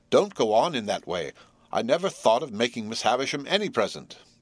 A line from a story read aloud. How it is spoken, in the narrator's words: cried in desperation